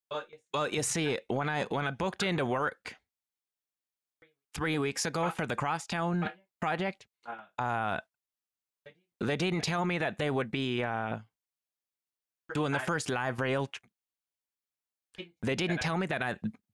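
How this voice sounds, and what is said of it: Put-on Irish-Minnesotan-Canadian accent. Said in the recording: “I don't even know what accent I'm doing anymore ... Somewhere between Irish and Minnesotan, I think ... Which is pretty Canadian”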